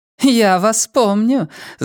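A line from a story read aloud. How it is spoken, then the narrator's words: Lady laughing. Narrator (Russian): засмеялась дама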